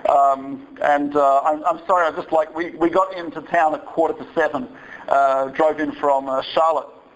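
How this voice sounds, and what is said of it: Australian accent. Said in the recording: “I'm from Australia, as you may hear from the accent”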